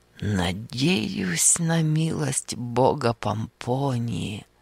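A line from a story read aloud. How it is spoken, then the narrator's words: Whispered. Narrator (Russian): прошептал он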